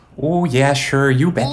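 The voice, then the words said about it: Put-on Minnesota accent. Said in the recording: “do they talk like this in Minnesota? Is that Minnesota accent?”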